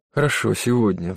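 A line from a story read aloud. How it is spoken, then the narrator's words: Sigh. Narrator (Russian): вздохнула Хизер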